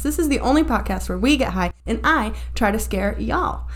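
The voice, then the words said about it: Slight put-on Southern US accent. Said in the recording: “picked up a little southern accent there”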